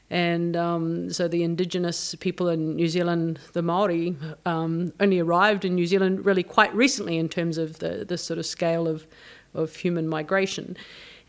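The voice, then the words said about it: New Zealand accent. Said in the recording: “you might be able to detect from my accent that I'm from New Zealand originally.”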